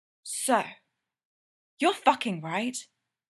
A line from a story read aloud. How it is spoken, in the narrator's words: Dustin asks, keeping his voice down to not be heard over the realtor's orgasmic description of the second bathroom